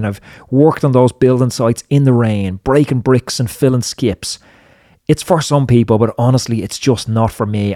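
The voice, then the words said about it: Strong Irish accent. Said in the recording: “Your Irish accent is too strong.”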